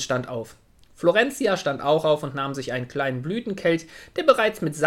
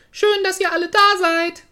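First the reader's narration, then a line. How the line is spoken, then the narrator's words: Loud. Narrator (German): sagte Florentia laut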